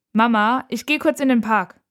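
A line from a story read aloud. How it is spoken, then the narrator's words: Calling out. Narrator (German): ruft Nora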